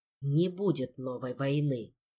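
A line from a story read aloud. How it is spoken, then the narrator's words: Sudden ominous whisper. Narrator (Russian): Голос короля вдруг снизился до зловещего шепота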